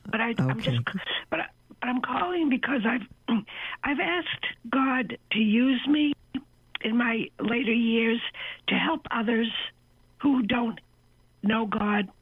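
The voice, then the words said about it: Slightly raspy voice. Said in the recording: “I have a little cold, so my voice is a little raspy.”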